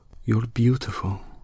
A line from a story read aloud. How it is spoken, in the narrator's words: she whispered tenderly in her ear, and there was sadness in it